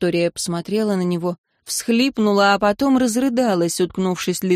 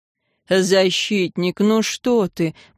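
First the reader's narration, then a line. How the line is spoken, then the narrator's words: Moan. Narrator (Russian): простонал Арен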